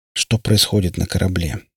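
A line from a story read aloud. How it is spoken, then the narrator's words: Plain. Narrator (Russian): спросил он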